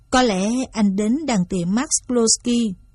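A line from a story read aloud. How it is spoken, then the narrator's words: Plain. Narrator (Vietnamese): John nói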